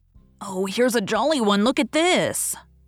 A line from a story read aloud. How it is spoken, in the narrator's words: poor Alfred, seeing that he was losing her, he did not know how, kept exclaiming